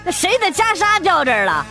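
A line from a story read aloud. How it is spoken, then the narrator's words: Shouting. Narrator (Chinese): 服务员喊了一声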